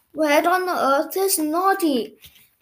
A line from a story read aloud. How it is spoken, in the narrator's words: yawned